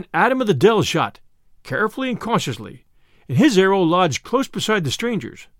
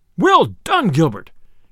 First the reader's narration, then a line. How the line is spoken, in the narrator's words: cried the sheriff, right joyously